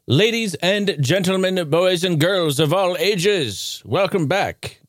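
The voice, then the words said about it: Put-on announcer accent. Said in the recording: “I- am not sure where this accent's coming from.”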